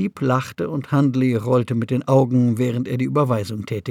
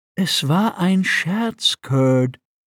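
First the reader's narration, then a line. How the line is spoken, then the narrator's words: Sighing. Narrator (German): Thamp seufzte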